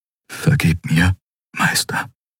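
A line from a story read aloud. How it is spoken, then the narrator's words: Whisper. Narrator (German): flüsterte er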